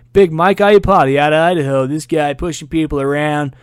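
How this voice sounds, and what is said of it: Football broadcaster impression. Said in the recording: “That's my best John Gruden impersonation”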